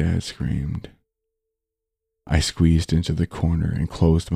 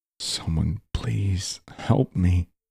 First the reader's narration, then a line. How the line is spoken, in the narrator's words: I whispered out